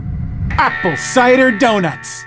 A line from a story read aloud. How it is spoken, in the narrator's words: yelled